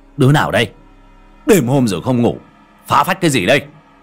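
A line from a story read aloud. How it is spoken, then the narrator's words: Angry shout. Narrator (Vietnamese): Ông Trường quát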